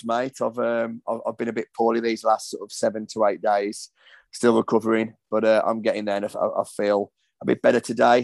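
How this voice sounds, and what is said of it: Hoarse voice. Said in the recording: “You sound a little bit hoarse though ... I am a little bit hoarse”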